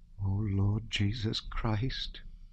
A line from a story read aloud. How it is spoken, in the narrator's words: murmured